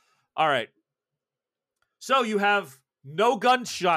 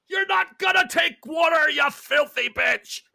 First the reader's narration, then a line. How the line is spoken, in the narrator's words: he's screaming